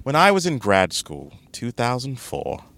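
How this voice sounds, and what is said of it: James Lipton impression. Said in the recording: “my James Lipton voice”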